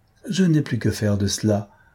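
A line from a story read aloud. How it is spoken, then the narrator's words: Plain. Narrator (French): me dit-elle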